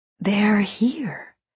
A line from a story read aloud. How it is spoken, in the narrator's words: she whispered